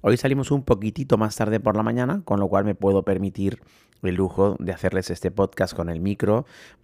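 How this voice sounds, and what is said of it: Hoarse, strained voice. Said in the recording (Spanish): “estoy afónico, como están viendo, de, pues, de hablar con, la comunidad”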